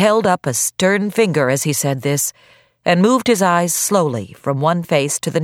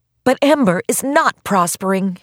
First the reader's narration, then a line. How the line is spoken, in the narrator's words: cried